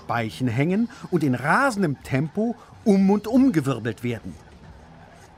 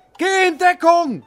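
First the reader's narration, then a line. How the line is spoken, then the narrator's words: Shouting. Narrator (German): schreit der Röhnradler Robert zu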